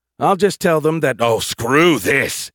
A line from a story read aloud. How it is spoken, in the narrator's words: he snarled